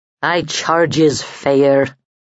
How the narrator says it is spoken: the smith rumbled

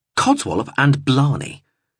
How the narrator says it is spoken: he agreed firmly

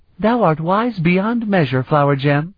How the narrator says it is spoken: she said gaily

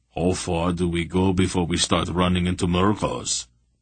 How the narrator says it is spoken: Barak rumbled

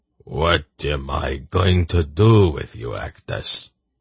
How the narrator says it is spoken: Sakath said wearily

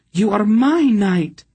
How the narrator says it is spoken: Still panting from his efforts

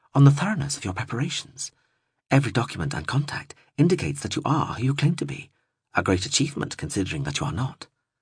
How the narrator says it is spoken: she murmured

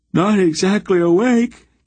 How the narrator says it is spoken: Geryon yawned

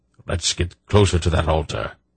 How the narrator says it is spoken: Belgorath muttered

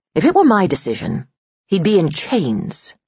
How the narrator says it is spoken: she said calmly

